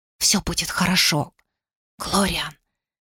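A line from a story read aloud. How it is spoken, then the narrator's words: Whisper. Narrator (Russian): зашептала она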